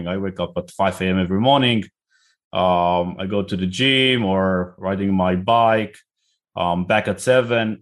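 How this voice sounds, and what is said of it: Israeli accent. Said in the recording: “I'm originally from Israel, as you can probably hear by my name and accent”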